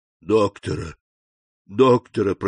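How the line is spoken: Moaning. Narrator (Russian): простонал Кадрус

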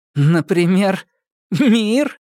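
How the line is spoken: Laughing woman. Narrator (Russian): Полина рассмеялась

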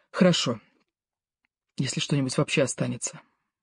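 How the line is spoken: Quiet woman. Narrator (Russian): тихо сказала Ева

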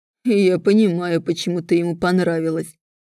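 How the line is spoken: Mocking deep chilling voice. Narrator (Russian): насмешливо произносит глубокий низкий голос, от которого промерзает все нутро

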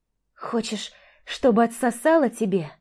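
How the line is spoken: Hoarse wheeze. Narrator (Russian): просипела Маша

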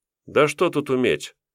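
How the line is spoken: Scoffing snort. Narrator (Russian): хмыкнул я

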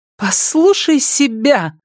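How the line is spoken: Shrill laughter. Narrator (Russian): пронзительно рассмеялась Мэдлин

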